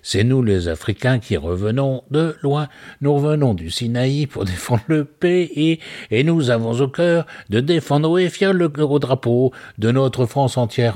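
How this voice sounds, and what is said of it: Regional accent returning while singing. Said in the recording (French): “T'as presque un accent qui te revient quand tu chantes ça ... bien sûr que j'ai l'accent qui revient”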